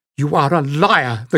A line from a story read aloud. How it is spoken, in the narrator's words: the girl snapped